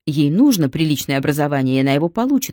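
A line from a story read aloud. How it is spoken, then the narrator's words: Plain. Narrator (Russian): ответил он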